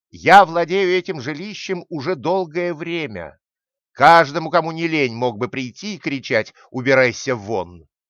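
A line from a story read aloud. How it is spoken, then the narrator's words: Hare shouting. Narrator (Russian): заяц и кричал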